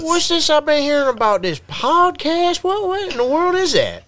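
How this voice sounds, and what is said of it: Put-on Southern accent. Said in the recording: “a really good Southern accent ... My voice acting skills are subpar.”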